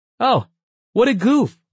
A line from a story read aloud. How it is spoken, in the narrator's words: Arn suddenly blurted